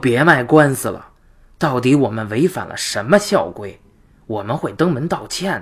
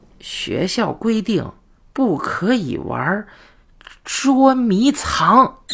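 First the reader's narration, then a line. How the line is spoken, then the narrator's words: Slow, hesitant. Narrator (Chinese): 付姐卡了半天，才缓缓地说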